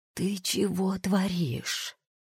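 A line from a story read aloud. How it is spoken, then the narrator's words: Hissed undertone through teeth. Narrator (Russian): жрец шикнул на Гевара и процедил вполголоса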